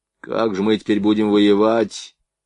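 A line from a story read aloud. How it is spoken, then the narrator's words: Glum. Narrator (Russian): уныло проговорил Блохин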